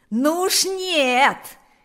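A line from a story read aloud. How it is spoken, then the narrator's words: Loudest shouting. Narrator (Russian): кричал громче всех Панас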